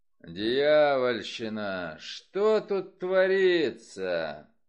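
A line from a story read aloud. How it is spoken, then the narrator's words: Booming voice. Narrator (Russian): прогремел за моей спиной голос Нира Вульфа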